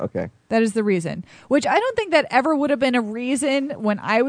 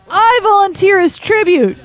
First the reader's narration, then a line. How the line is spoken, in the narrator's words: at the top of her lungs